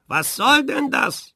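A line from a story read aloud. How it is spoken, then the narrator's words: Angry teacher shouting. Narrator (German): wurde der Lehrer ganz ärgerlich und rief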